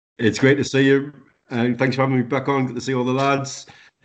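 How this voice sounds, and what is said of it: Speaks with a distinctive accent. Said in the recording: “bringing his lovely accent”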